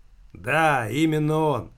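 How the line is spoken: Hoarse wheeze, woman. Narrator (Russian): прохрипела тетка

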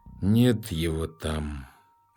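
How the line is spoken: Hopeless sigh. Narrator (Russian): безнадежно вздохнул первый

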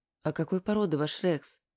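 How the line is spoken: Quiet question. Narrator (Russian): спросила тихим голосом Аня у Игоря

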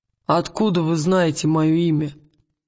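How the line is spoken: Rude question. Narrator (Russian): грубо спросил

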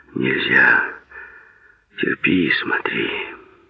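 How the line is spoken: Someone speaking quietly. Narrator (Russian): кто-то тихо говорил ему

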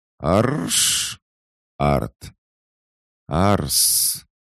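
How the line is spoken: Doll's strained hiss. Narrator (Russian): С явным трудом прошипела кукла

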